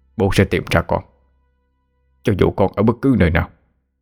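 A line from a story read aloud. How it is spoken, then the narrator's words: Sudden old man's mutter. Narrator (Vietnamese): Đột nhiên ông lẩm bẩm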